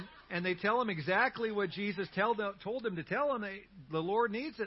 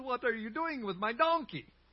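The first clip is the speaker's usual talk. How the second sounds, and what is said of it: Very poor put-on accent. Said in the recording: “That was like the worst accent ever”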